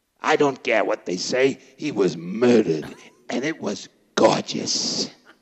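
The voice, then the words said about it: Imitates another person's voice. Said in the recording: “your best impression. That's the one. When you go on the road, you should lead with that impression”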